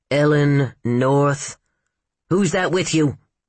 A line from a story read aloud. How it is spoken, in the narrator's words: he barked